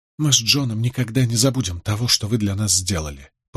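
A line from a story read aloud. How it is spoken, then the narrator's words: Whisper. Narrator (Russian): прошептала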